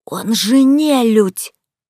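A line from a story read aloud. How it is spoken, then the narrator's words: Indignant quiet clear whisper. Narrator (Russian): возмущенно заявила мамуля, умудряясь при этом шептать невероятно тихо, но настолько внятно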